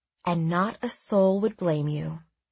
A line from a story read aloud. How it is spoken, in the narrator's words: I replied smoothly